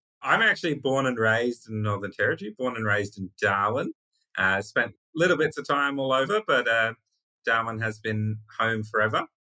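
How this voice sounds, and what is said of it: Australian Northern Territory accent. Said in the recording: “there's an accent there, I sense”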